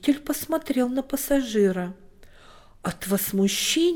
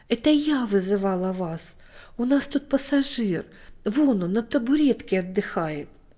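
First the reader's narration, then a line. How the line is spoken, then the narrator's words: Timid old woman. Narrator (Russian): Бабушка Антония сказала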